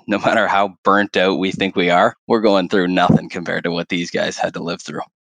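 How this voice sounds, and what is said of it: Canadian English accent. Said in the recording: “your Canadian accent”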